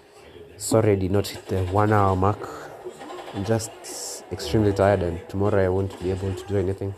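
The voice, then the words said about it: Tired, strained, fading voice. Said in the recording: “my terrible voice. I'm losing my voice.”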